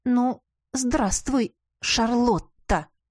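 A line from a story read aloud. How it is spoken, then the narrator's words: Composed, through gritted teeth. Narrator (Russian): Справившись с эмоциями, процедила я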